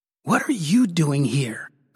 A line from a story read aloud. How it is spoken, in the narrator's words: I whispered harshly